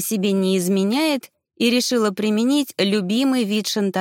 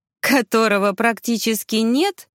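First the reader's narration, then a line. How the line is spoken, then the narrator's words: Snorting remark. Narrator (Russian): хмыкнула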